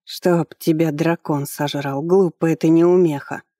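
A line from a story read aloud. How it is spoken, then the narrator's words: Hoarse old voice. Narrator (Russian): послышался сиплый старческий голос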